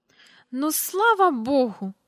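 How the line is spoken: Exclamation with loud sigh. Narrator (Ukrainian): вигукнула міс Жайворон і голосно зітхнула

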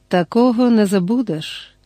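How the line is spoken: Calm. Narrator (Ukrainian): спокійно сказав капітан Квіннові

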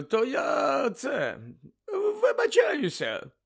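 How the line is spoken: Hoarse croak. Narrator (Ukrainian): прохрипів голос з тієї смердючої хмари

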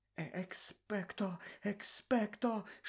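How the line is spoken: Whispering nearby. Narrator (Ukrainian): шепотіла поруч Герміона

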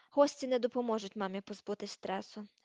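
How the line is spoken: Sigh. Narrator (Ukrainian): зітхнув Рон

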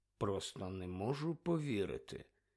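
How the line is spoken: Mutter. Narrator (Ukrainian): пробурмотів

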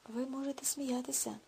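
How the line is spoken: Sad. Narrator (Ukrainian): сумно сказав Дентон

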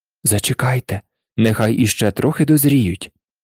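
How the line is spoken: Prince whispering. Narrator (Ukrainian): прошепотів королевич

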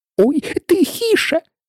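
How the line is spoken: Frightened whisper. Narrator (Ukrainian): злякано зашепотів кролик

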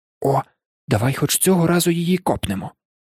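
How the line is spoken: Whispered in ear. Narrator (Ukrainian): зашепотів Рон на вухо Гаррі

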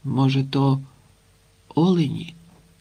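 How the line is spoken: Weak voice. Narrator (Ukrainian): кволим голосом відгукнувся Санько

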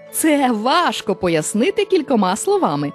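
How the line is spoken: Laughing reply. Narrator (Ukrainian): засміявшись, відповів мавп'ячий король

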